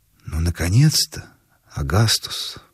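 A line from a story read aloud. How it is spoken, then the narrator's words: Whispered. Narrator (Russian): прошептал голос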